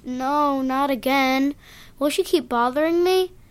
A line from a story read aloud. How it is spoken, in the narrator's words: Jack moaned